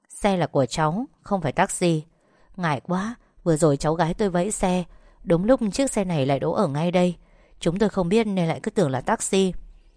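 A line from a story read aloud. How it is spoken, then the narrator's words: Gentle smiling speech. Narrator (Vietnamese): Vũ khẽ mỉm cười nói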